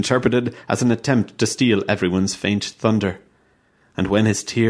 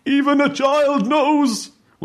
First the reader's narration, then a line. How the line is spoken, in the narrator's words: Skychem's exasperated and finally sobbing repetition of the phrase